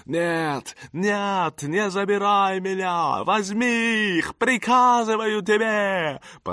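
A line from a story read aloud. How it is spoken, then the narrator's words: Shouting. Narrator (Russian): Он закричал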